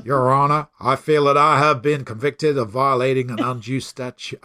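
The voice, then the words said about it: Deep put-on accent voice. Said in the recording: “maybe I should try the accent ... he's got a mighty deep voice”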